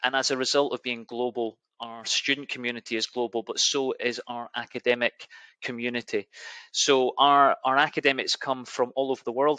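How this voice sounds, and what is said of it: Scottish accent. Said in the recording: “I have a Scottish accent”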